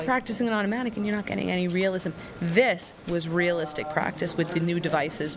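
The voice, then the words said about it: Long Island New York accent. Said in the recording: “I'm from Suffolk County, Long Island, New York. ... I tried so hard to cover the accent. It still comes out.”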